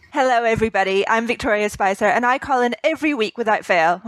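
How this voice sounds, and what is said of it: Scottish accent with English influence. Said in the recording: “I have a bit of an accent. For those who don't recognise it, it's Scottish, mixed with 10 years of living in England”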